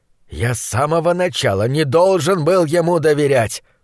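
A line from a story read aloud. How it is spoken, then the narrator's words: Groan. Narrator (Russian): простонал фон Хельрунг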